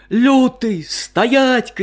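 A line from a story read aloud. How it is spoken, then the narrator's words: Woodcutter shouting. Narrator (Russian): кричал лесоруб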